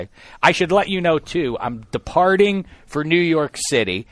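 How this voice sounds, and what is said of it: Voice in poor condition. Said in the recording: “my voice is bad right now”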